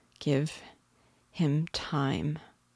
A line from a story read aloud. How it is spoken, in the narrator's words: said slowly